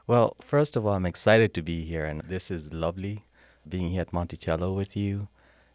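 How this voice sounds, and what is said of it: Kenyan accent. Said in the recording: “he has a lovely accent ... It comes from Kenya.”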